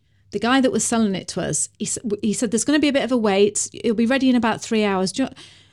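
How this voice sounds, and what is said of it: Northern English accent. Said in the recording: “he talked with a northern accent like that ... That's a beautiful accent, by the way. That's my accent.”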